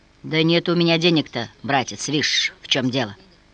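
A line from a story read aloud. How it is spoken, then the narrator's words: Muttered. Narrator (Russian): пробормотал он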